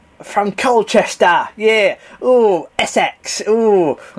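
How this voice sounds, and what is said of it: Put-on Essex accent, spot on. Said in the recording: “Should I do a your accent? ... that's pretty spot on.”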